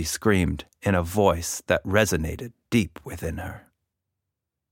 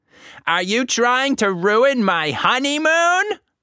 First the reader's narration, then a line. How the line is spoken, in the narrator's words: he shrieked